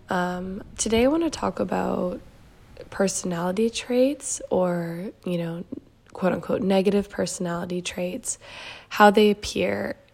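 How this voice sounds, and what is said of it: Stuffed-up, congested voice. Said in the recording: “my voice might sound a bit stuffed up. It is because I'm feeling a bit congested, a bit sick”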